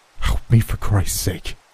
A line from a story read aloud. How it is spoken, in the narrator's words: he whispered anxiously